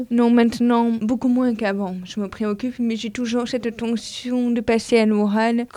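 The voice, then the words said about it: Unusual accent. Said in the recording (French): “j'ai un accent vraiment bizarre”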